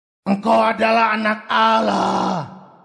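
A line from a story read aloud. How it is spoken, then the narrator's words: Demons shouting repeatedly. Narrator (Indonesian): Setan-setan itu berteriak-teriak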